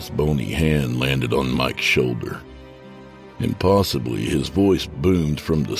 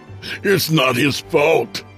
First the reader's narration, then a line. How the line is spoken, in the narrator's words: Mike pleaded with Sal